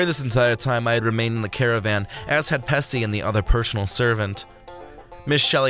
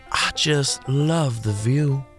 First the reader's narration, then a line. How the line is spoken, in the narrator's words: Miss Shelley sighed